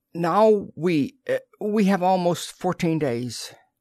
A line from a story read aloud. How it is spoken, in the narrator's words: Diane said shakily